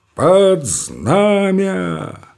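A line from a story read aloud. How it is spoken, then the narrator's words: Sharp metallic command, pause. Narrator (Russian): командует он резким металлическим голосом и на секунду делает запятую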